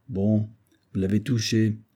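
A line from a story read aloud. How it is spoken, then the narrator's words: Plain. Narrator (French): répondit Hood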